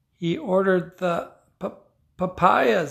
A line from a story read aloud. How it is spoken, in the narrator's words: sobbed Esperanza